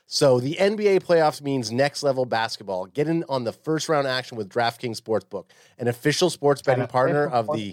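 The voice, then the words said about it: Announcer-style voice. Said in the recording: “I'm in my announcer voice”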